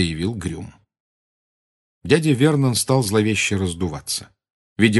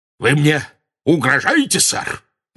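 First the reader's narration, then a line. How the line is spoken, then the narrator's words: Very loud bark. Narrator (Russian): рявкнул он так громко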